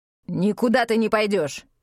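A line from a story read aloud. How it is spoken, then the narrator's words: Barking sharply. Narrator (Russian): рявкнул он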